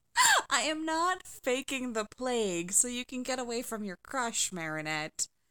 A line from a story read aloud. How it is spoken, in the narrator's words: Alia laughed